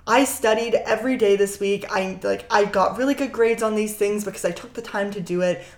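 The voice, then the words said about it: Hoarse, failing voice. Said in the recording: “I'm super losing my voice”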